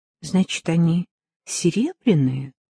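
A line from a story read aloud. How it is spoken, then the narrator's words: Plain question. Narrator (Russian): спросила Вера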